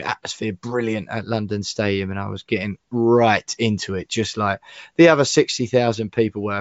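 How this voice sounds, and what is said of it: Croaky, hoarse voice. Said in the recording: “As you can probably hear already, my voice is still feeling a little bit croaky”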